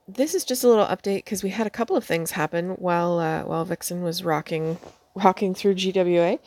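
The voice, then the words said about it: Slightly rough, strained voice. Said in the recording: “I was singing last night and my voice is a little bit rocked”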